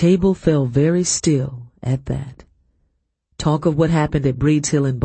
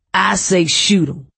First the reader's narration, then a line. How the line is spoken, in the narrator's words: growled the man who looked like Edward the Bull